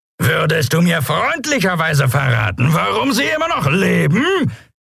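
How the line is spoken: Bellowing over wind noise. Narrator (German): brüllte er gegen das Tosen des Windes und das Lärmen der Schubdüsen an

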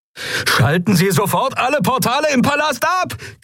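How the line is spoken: Shrieking over sirens. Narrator (German): kreischte Galet über die Sirenen hinweg

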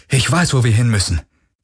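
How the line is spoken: Calling out. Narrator (German): rief er

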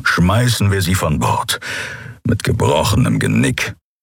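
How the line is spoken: Grumbled. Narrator (German): brummte Keru

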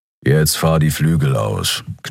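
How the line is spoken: Growled. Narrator (German): knurrte Keru

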